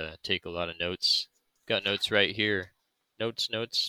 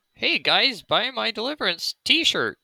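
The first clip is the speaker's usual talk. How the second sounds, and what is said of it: Imitates another person's voice. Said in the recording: “our best Andrew Lowen impersonation”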